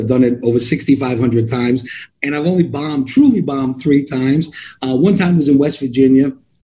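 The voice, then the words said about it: New York accent. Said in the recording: “I'm still have this New York accent because my tongue is cursed. I'm going to sound this way forever.”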